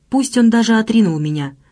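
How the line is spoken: Ecstatic prayerful exclamation. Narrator (Russian): воскликнула она, и Зюс был поражен молитвенным экстазом, звучавшим в ее голосе

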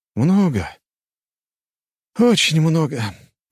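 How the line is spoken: Sighing. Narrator (Russian): вздохнул я

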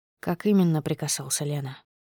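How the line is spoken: Quiet question. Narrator (Russian): Интересуется тихо

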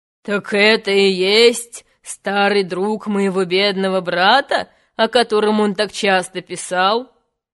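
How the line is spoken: King interrupting. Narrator (Russian): король прервал его, сказал

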